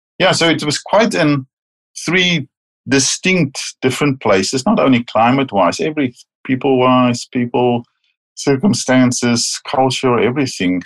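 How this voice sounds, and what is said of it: Distinct non-Canadian English accent. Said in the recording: “I still speak with a distinct accent.”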